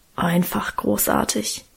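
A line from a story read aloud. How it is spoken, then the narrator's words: Reverent mumble. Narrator (German): brummelte Guste andächtig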